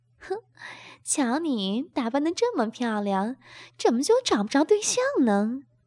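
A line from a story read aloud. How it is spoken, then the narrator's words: Laughing. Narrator (Chinese): 吴敏笑着说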